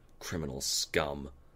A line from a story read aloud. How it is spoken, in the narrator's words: One of them spat